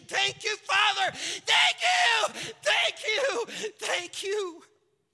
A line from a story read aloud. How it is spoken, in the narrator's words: to the point of jumping up and down and shouting and saying